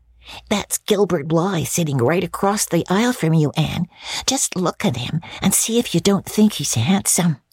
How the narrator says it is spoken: Diana whispered to Anne

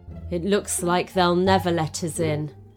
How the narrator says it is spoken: Maureen sighed

